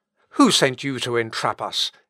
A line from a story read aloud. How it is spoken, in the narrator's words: exclaimed the merchants